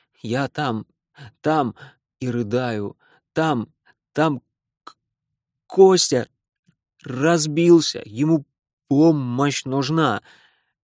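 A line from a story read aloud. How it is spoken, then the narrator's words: Stammering. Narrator (Russian): заикаясь, говорю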